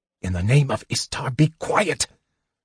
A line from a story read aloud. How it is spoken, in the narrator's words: Sturm hissed